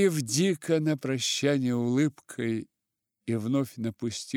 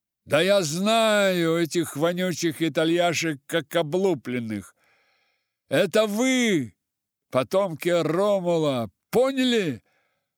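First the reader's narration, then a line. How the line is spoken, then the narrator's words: Defiant shout. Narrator (Russian): С вызовом крикнул он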